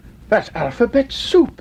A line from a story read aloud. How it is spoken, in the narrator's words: exclaimed Nubbit